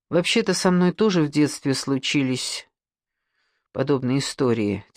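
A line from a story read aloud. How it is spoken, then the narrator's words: Quiet. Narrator (Russian): тихо сказала Александра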